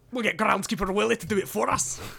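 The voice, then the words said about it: Weak Scottish accent, Groundskeeper Willie. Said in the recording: “Not really doing my Scottish accent very well for once”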